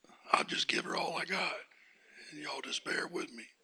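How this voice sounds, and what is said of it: Hoarse, fading voice. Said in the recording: “My voice is coming and going ... It's very seldom I get a horse”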